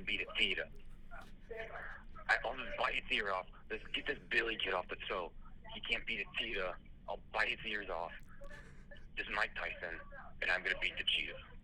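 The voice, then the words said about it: Mike Tyson impression, Brooklyn accent. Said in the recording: “I don't think that was the real Mike Tyson. He had a Brooklyn accent, not a lisp.”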